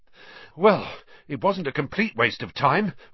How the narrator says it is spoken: Ron panted

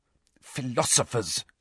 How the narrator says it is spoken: hissed Hermione

